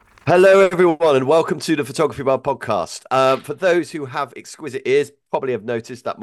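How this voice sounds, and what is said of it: Sick, congested voice. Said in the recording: “my voice is not quite the same today. Yes, I've come down with the dreaded man flu”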